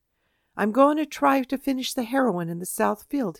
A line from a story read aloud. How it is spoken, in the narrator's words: he said